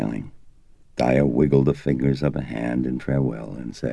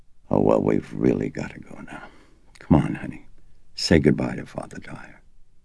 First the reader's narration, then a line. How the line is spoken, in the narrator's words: she said softly and huskily